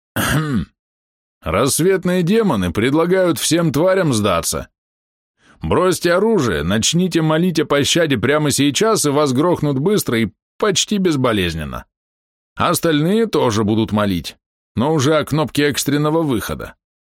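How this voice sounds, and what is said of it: Deep bass voice parodying Maus. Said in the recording (Russian): “пробасил Рина, пародируя Мауса”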